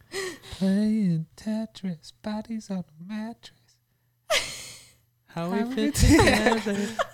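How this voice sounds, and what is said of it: Soft falsetto singing. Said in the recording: “That was soft. That was my falsetto.”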